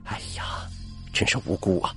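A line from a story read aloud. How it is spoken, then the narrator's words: Sighing. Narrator (Chinese): 张队长闻言叹了口气说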